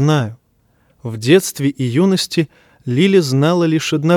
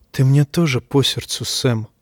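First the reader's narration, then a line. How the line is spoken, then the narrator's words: Whispered. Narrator (Russian): прошептала Лили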